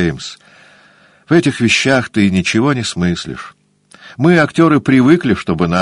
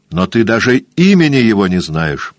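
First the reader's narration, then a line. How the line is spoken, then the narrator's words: Sharp young man. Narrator (Russian): сказал резко юноша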